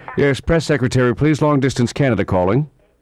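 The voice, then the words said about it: Put-on English accent. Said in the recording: “Why are you using an English accent?”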